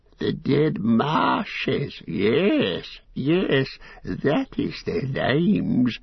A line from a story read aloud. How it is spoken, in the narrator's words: he cackled